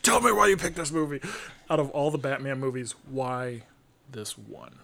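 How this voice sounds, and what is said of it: Angry, heated tone. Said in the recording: “I'm sorry if I sound a little angry ... raging”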